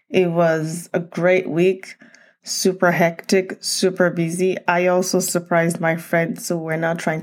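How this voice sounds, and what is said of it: Groggy, sleepy-sounding voice. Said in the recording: “I sound a little groggy ... it's 5:30 a.m.”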